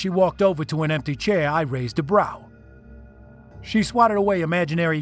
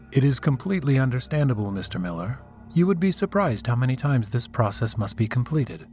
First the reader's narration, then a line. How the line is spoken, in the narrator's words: said in a flat tone